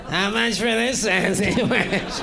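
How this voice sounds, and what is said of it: Imitates another person's voice. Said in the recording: “the worst Louis Anderson impression that's ever happened”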